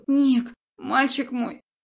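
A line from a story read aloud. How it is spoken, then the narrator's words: Hoarse rasp. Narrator (Russian): Хриплю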